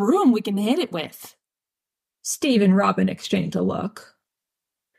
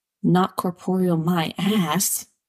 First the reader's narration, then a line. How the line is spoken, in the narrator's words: Dustin mutters